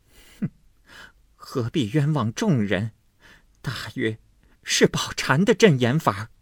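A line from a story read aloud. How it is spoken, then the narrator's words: Laughing. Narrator (Chinese): 金贵笑道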